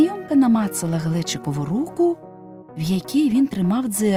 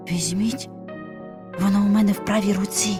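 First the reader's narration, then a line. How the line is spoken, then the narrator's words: Whispered. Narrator (Ukrainian): шепнув Вася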